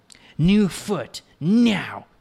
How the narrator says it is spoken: she barked

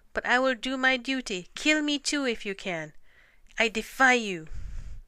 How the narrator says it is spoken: he cried

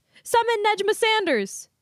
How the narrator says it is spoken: yelped

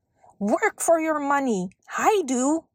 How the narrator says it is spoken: yelled

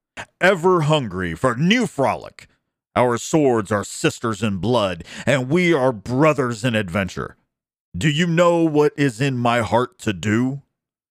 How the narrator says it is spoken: he cried

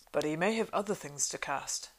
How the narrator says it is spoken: said Gimli

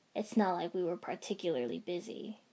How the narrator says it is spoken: he said dryly

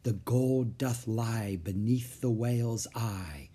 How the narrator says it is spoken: whispered Jack

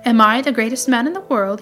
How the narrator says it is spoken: he asked

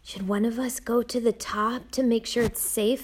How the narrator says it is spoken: Nina whispered

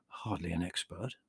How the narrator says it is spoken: mumbled the man called Theodore, deprecatingly

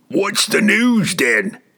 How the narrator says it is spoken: one of them demanded impatiently

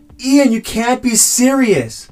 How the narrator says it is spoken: we hear Rico scream out

